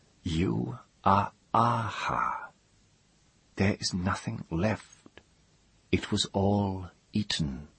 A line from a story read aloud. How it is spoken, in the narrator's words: she confirmed, leaning forward a little, almost whispering